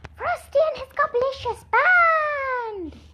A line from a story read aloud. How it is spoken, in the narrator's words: Kirsty and Rachel said eagerly